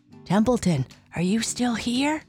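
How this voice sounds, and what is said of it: Whispering. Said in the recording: “she whispered ... Why are you whispering?”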